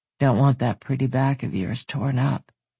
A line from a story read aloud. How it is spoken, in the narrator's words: rumbled in a soft stroke against her ear